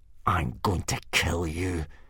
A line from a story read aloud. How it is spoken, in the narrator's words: hissed Snotlout at Hiccup